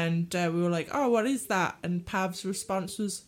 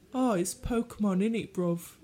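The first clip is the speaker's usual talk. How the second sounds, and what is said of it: Impression of a London accent. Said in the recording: “my friend Pav from London ... my impression”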